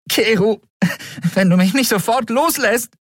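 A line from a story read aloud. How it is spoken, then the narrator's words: Called out. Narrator (German): rief Endriel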